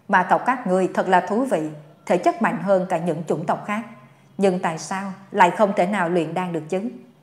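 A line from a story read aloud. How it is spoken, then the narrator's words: Gloating laugh. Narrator (Vietnamese): Dương Khai bật cười, như thể vui sướng trước nỗi đau của người khác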